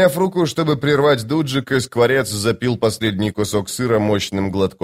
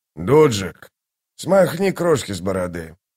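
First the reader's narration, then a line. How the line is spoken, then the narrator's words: Grumble. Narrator (Russian): проворчал первый кулак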